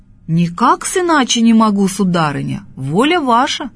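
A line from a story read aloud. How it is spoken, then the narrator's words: Loud peasant man. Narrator (Russian): говорит громко мужик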